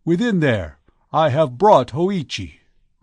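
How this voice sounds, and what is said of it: Loud, calling out. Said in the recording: “cried in a loud voice”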